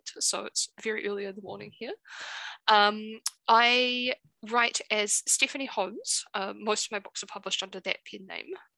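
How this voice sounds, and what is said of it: New Zealand accent. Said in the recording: “I live in New Zealand. You might be able to tell by my accent.”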